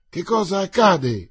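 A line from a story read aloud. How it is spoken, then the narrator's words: Exclamation. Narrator (Italian): esclamò Mordant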